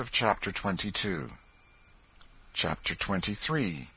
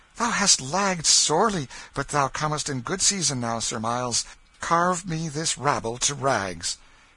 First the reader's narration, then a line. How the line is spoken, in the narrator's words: The king with flushed cheeks and sparkling eyes, exclaiming